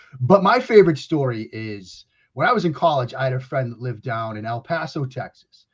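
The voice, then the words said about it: Boston accent. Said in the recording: “I still, Kyrie, have the Boston accent ... Now you can hear it. Speaks for itself. I mean, the Boston accent, it just speaks for itself ... Oh, I heard it right there, by the way.”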